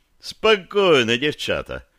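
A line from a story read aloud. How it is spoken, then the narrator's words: Cheerful declaration. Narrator (Russian): бодро заявил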